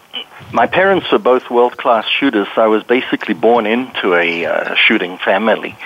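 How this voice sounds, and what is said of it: Foreign accent. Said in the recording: “People can tell by your accent that you probably were from another country”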